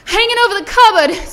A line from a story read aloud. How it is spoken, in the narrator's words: screamed Ms